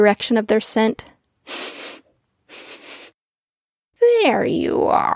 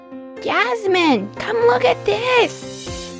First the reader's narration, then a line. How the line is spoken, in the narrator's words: He shouted